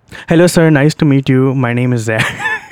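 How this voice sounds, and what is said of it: Heavy exaggerated Indian accent. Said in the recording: “I hit him with that fat accent ... like a straight from India brown guy”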